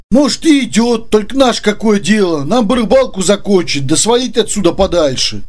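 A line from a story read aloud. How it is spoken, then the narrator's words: Sad remark. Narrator (Russian): грустно заметил Женя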